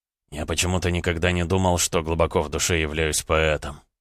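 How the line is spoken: Quiet reply. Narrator (Russian): Дмитрий отвечал тихо

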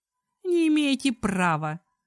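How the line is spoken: Sobbing speech. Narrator (Russian): сквозь всхлипы сказала

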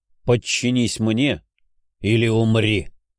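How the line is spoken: Low hoarse bass. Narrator (Russian): Мой мысленный приказ прозвучал низким хриплым басом

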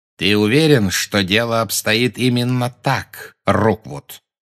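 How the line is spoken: Plain question. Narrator (Russian): спросил Гарри

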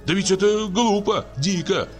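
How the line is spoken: Group shouting. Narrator (Russian): кричали мы

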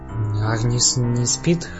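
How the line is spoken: Uncertain question. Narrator (Russian): неуверенно спросил я

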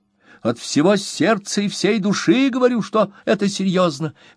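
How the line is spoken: Energetic exclamation. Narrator (Russian): воскликнул мистер Уинкль с большой энергией

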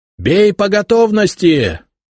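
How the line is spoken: Sergeants yelling. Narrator (Russian): орали сержанты

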